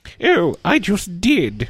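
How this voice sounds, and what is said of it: Imitates a character's voice. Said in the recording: “my awesome Agent Carter impression”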